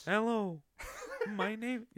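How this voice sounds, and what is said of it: Robotic synthesized voice. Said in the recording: “Stephen Hawking impression... The robot voice... the robo voice... You just breathe in and talk at the same time.”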